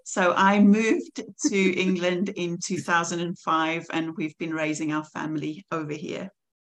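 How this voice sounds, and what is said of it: South African accent. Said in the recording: “you could probably hear from my accent that I was born and raised in South Africa.”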